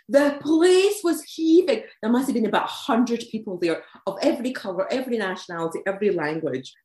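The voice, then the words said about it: Fast Scottish accent. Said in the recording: “my very fast Glaswegian / Edinburgh accent”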